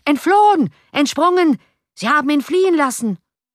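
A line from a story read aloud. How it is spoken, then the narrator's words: Angry crowd shouting. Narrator (German): Andere vor Zorn glühende Gesichter schrien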